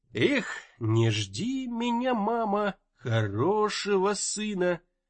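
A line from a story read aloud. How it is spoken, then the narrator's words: Nasal singing. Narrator (Russian): гнусаво пропел Разуваев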